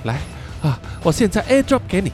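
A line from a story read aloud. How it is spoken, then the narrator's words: Breathless, feigning calm. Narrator (Chinese): Sam 也是喘着气啊，但还是尽量装出毫不在意、气定神闲的样子，然后说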